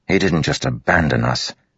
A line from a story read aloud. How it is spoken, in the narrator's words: Adolin spat